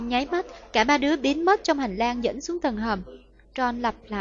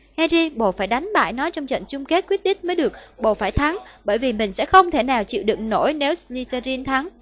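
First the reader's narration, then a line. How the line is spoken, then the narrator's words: Amazed, grateful hiss. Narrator (Vietnamese): với giọng vừa kinh ngạc vừa cảm kích, Hermione rít lên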